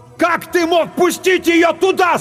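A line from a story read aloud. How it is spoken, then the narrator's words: Yelling. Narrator (Russian): заорал Клайв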